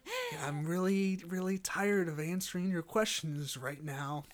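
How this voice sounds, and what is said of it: Imitates another person's voice. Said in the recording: “I can't do a good Jack Nicholson impression”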